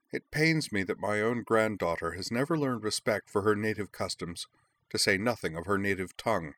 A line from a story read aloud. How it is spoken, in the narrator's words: The Duchess shook her head sadly and said